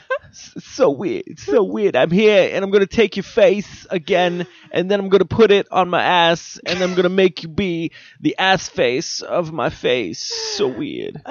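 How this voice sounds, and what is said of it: Imitates another person's voice. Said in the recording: “So you're doing Nicolas Cage ... do a Nicolas Cage impersonation ... It really wasn't even that good.”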